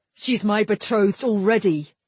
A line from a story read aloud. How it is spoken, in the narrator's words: Galrion snapped